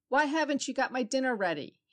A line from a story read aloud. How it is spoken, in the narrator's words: He called out angrily